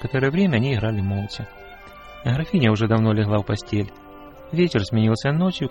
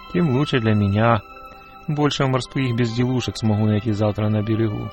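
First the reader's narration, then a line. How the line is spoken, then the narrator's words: Plain. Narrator (Russian): ответил Эрих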